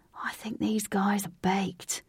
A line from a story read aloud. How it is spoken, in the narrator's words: Lynx was standing in earshot of Katie and whispered